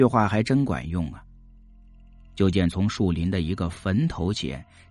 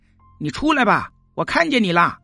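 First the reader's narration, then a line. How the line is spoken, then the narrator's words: Shouting. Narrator (Chinese): 亮子又喊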